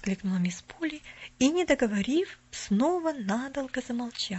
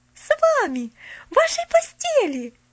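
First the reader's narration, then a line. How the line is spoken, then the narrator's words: Breathless delighted exclamation. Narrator (Russian): Захлебываясь от восторга, воскликнула Поллианна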